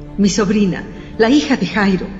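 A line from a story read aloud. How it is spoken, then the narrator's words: Breathless panting. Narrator (Spanish): jadeó Judas, falto de aliento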